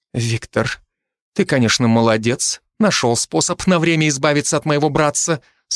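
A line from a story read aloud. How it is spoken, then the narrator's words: Perfectly calm, restrained. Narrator (Russian): совершенно спокойно произнесла графиня, сумевшая полностью обуздать свои эмоции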